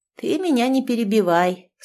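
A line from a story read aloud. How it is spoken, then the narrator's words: Calm objection. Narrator (Russian): спокойно возразила та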